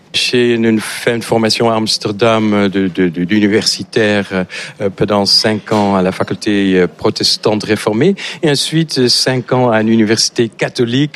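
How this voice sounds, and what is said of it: Slight Dutch accent in French. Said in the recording (French): “On voit que vous avez un léger accent. ... Tout à fait, que j'ai pas perdu depuis les 35 ans que je suis en France. Je suis néerlandais”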